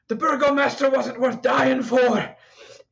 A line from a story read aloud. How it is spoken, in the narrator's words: Guard number two drops his spear, and he shouts